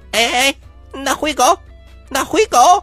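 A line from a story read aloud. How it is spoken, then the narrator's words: Donkey braying. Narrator (Chinese): 那驴子又叫了几声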